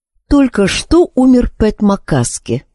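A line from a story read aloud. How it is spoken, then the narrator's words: Even flat voice. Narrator (Russian): сказала она ровным голосом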